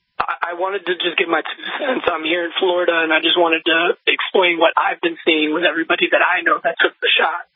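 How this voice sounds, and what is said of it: Slightly weak voice. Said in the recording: “I'm getting over a little bronchitis, so my voice might be a little weak.”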